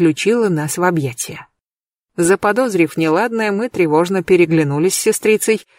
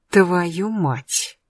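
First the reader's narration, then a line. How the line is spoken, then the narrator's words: Near-silent mutter through teeth. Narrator (Russian): буркнула Агатка сквозь зубы почти беззвучно, но я расслышала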